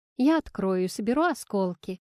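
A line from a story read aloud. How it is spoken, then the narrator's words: Plain. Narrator (Russian): сказала она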